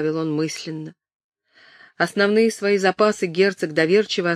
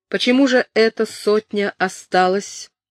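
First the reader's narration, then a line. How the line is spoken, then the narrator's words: Through gritted teeth. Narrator (Russian): спросил герцог сквозь зубы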